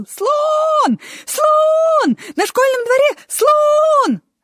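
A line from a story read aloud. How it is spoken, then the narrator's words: Small boy shouting. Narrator (Russian): маленький мальчик и закричал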